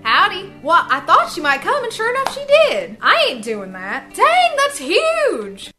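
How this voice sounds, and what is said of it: Texan accent. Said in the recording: “That's straight up Texas. ... Texan accent”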